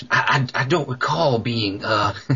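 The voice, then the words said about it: Imitates another person's voice. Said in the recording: “I'm doing my Reagan imitation.”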